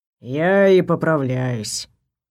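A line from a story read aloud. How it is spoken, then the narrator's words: Sigh inside head. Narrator (Russian): вздохнул Вейр у меня в голове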